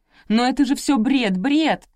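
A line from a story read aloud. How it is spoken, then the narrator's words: Shouting again. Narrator (Russian): снова закричала Анна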